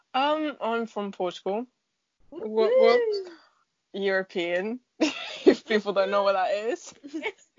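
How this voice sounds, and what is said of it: Slight foreign accent. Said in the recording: “a bit of an accent”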